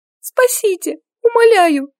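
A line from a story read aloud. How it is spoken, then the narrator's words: Thin squeaky voice. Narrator (Russian): Тоненьким голоском пропищала она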